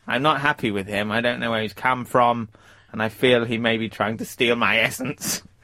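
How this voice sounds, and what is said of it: Imitates another person's voice. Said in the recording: “perfecting my David Mitchell voice ... that's not very good ... It's absolutely fabulous”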